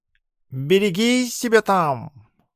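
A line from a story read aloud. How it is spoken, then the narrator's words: Excited purring. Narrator (Russian): взволнованно мурлыкнул мой меховой друг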